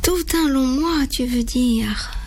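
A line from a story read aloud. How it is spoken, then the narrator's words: Mother sighing. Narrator (French): soupire maman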